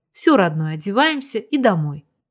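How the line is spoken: Gentle request. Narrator (Russian): попросила

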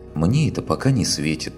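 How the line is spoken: Sighing, girlfriend. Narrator (Russian): Вздохнула подружка

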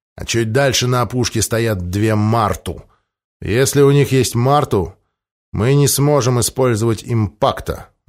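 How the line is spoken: Gloomy reply. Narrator (Russian): мрачно отозвался Генрих

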